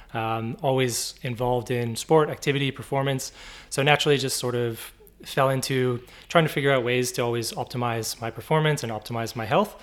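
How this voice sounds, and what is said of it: Canadian accent. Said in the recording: “If you can't tell from the accent, I'm Canadian.”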